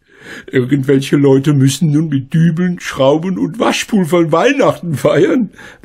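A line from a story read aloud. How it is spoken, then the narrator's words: Laughing. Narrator (German): lachte Frau Schmidt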